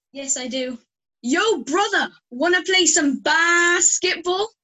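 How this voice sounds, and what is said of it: Impression of an American accent. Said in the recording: “an impression of your own ... every American in the BBL ... We need to work on that Jana accent”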